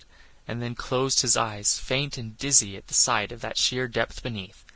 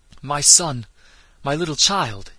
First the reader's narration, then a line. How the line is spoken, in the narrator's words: he cried, in a choked, trembling voice